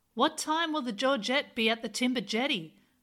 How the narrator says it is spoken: he shouted out

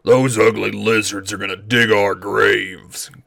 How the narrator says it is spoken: growled my father

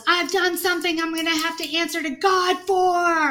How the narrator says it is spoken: as he's attacking them, he yells

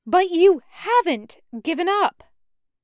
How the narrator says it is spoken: Pearl reiterated, raising her voice to match

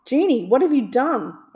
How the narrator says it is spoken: Aladdin shouted

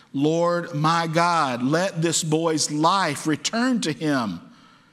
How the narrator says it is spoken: cried out to the Lord

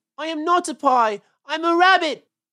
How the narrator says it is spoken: wailed Peter suddenly

